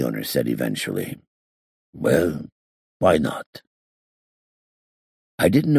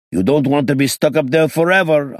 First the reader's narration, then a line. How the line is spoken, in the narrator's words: I shouted